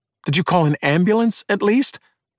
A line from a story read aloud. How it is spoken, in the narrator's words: Emmett asked after a moment, hearing his own voice falter